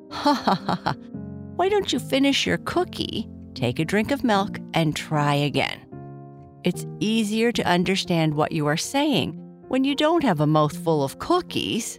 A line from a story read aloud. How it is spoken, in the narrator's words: Papa Bear said, laughing